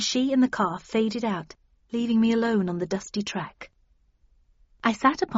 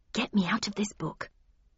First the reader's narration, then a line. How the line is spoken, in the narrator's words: muttered